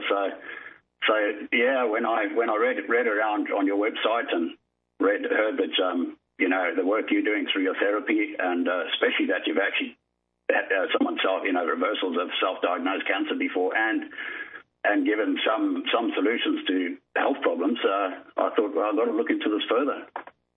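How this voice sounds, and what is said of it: Zimbabwean accent with slight Australian tinge. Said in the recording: “We're swapping, switching between South African and New Zealand ... It's Zimbabwean ... I've got a bit of the Australian thrown in, so that's where it sort of sounds a little bit different.”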